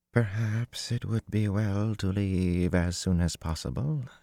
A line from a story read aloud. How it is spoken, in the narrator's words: breathed